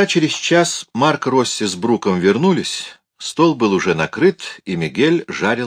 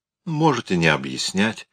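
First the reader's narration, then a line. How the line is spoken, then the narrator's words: Soft interruption. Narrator (Russian): мягко прервал ее Мигель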